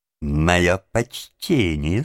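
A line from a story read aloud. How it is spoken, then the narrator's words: Plain. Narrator (Russian): сказал Крыси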